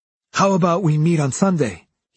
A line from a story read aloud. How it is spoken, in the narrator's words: he said excitedly